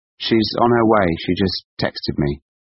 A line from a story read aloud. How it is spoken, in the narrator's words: said Gaia